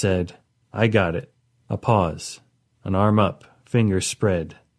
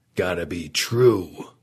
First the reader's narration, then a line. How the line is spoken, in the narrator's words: Perlman grumbled